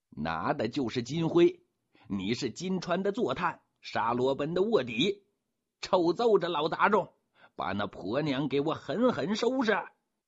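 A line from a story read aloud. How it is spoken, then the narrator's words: Shouting from outside. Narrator (Chinese): 鲜鱼公的声音在外头喊着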